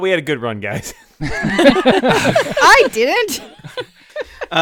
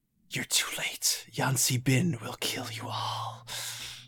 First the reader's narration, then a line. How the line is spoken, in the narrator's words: she says, so she whispers, but you all hear her perfectly